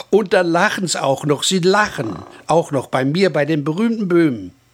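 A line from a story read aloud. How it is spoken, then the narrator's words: Whining complaint. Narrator (German): jammerte er noch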